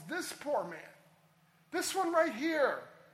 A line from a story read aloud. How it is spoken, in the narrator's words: he cried out